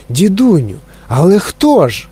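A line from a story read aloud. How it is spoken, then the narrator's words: Exclaiming. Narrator (Ukrainian): вигукнув Чарлі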